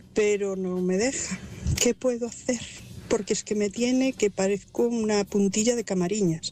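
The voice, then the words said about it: Distinctive regional Spanish accent. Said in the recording (Spanish): “me encanta tu acento”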